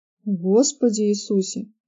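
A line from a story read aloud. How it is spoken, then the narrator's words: Amazed mutter. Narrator (Russian): изумленно пробормотал он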